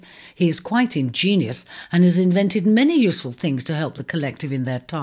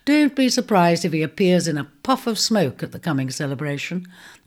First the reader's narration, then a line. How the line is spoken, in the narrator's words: she said, laughing